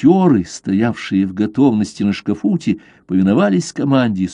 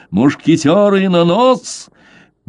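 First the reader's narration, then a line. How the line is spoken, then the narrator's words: Thunderous shout. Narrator (Russian): закричал громовым голосом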